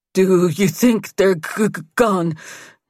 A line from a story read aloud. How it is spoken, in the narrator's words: Nate sputtered